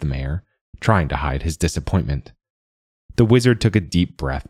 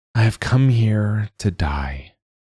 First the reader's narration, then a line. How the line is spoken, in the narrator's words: she said mournfully